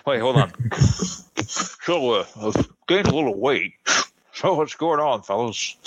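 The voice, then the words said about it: Imitates another person's voice. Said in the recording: “my Dan Marino impression ... That's horrible. It's horrible.”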